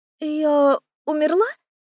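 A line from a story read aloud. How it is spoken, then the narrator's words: Timid question. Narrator (Russian): робко уточнила я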